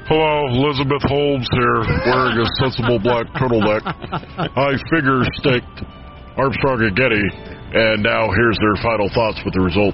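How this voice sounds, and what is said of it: Impersonation of Elizabeth Holmes. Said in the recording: “Celebrity voices impersonated.”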